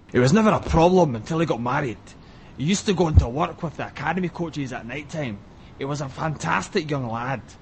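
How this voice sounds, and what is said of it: Rough Glaswegian Alex Ferguson impression. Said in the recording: “Should I do it in a rough Glaswegian accent? So I'll say authentic. ... And that was Alex Ferguson there”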